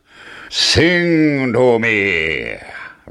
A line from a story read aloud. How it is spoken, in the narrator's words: roared the giant